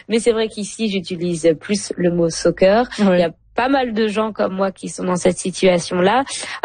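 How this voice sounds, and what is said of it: French from France accent. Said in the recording (French): “À mon accent, vous l'avez reconnu. ... j'ai grandi en France”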